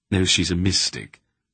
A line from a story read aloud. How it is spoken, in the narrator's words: Silk said softly